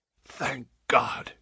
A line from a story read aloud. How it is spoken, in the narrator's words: he said hoarsely